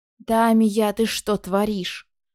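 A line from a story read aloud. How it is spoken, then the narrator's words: Angry hiss through teeth. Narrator (Russian): процедил король, скосив на меня непоотечески злой взгляд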